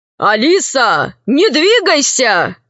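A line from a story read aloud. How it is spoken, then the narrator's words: Tall musketeer shouting. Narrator (Russian): крикнул один из мушкетеров, что был повыше ростом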